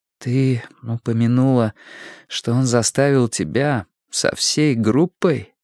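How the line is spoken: Quiet question. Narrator (Russian): спросила Робин тихо

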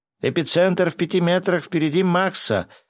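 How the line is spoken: Yelling. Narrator (Russian): заорал Гинзо

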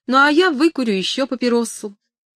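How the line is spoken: Carefree, laughing. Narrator (Russian): Гетти беспечно рассмеялась, как будто услышав шутку, и сказала

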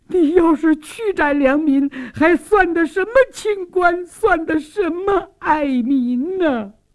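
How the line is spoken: Tearful plea. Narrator (Chinese): 苏旭娟也哭诉说

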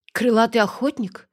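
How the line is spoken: Breathless exhale. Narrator (Russian): выдохнула я в чужие губы

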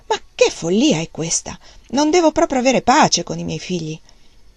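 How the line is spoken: Dismayed loud exclamation. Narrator (Italian): Wang Lung con grande sgomento esclamò ad alta voce

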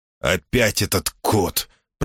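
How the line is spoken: Grumbled. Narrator (Russian): проворчал Колдмун

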